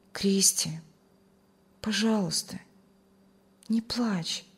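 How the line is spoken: Loving, tender voice. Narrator (Russian): с любовью и заботой ласково сказал

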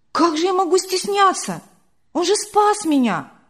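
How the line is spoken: Surprised exclamation. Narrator (Russian): удивленно воскликнула Вера

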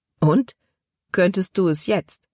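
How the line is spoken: Plain question. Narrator (German): fragte Caleb

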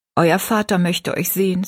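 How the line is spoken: Plain. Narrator (German): sagte sie

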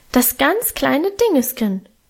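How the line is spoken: Higher, more urgent squeak. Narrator (German): piepste er noch heller und eindringlicher

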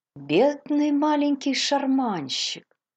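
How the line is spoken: Pitying sympathetic voice. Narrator (Russian): сочувствующим голосом, полным жалости, отозвалась Мейбл

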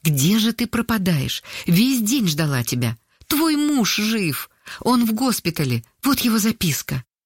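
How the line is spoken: Agitated, excited. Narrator (Russian): взволнованно сказала

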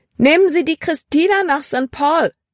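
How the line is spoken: Calling out. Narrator (German): rief sie

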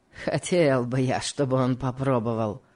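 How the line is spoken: Spiteful smirk. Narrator (Russian): сказал Легри, злобно усмехнувшись

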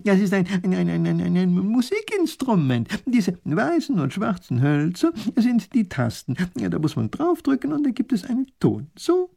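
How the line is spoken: Laughing. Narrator (German): lacht der Professor

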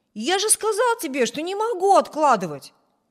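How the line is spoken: Impatient exclamation. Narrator (Russian): нетерпеливо воскликнул Виберт

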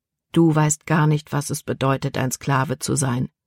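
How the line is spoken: Calm reply. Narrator (German): antwortete Caleb ruhig

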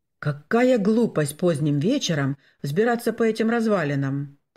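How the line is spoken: Grumbling. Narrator (Russian): проворчал доктор Штурсберг

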